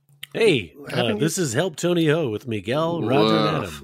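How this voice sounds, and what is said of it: Put-on radio announcer voice. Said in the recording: “This is my new radio voice.”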